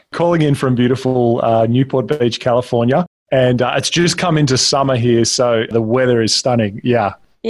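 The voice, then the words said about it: Australian accent. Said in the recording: “you've got a lovely Australian accent, as we can tell”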